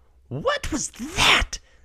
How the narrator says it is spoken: Bella shrieks

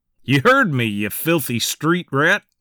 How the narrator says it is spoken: Charles said, laughing

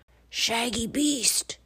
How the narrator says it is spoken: it growled

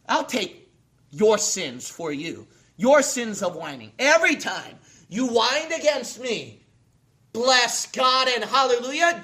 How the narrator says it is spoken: Jesus said

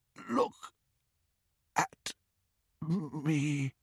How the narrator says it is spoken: he whispered

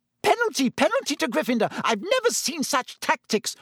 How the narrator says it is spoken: Madame Hooch screeched

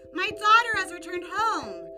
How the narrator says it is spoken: The queen then joyously shouted throughout town

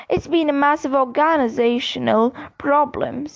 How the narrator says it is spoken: sighed Mr

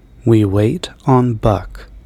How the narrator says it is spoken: Rogers said

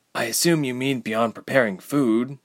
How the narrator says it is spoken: Ilse sighed

